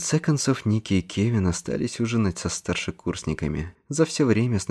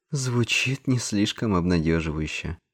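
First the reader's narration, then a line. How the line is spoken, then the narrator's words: Sighing. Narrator (Russian): вздохнула Дэн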